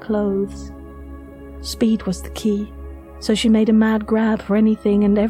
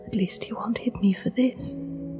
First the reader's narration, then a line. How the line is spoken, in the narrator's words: she had whispered to herself